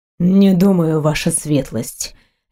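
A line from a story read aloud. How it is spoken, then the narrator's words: Icy voice. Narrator (Russian): ледяным голосом ответил Грегор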